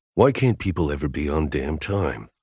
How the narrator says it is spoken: I grumbled

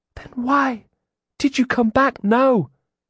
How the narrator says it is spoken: She whispered

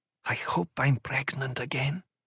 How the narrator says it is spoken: she whispered

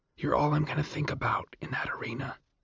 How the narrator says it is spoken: she whispered

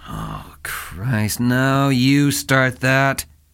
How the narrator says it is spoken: he grumbled

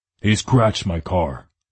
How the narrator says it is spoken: Gunner growled

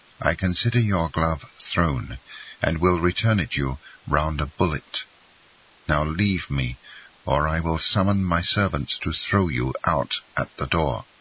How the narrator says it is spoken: said he in a solemn tone

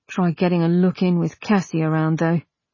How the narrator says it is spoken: Augustine said gloomily

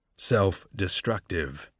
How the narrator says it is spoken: Dean Highbottom murmured

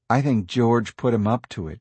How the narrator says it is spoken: she said

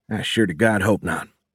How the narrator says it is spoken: Fisher said

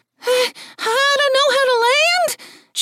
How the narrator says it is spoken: Jill shrieked in a strange statement that sounded like a question

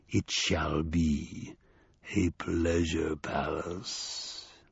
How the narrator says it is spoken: he said, his voice an almost inaudible rumble

